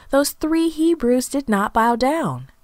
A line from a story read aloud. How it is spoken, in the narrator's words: they exclaimed